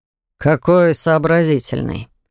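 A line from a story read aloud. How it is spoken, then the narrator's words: Amused snort. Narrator (Russian): хмыкнул принц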